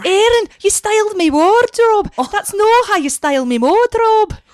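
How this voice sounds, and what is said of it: Poor put-on Scottish accent. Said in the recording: “How's your Scottish accent? ... it's excellent. No, it's not good at all. ... It's terrible. ... Oh, that's terrible.”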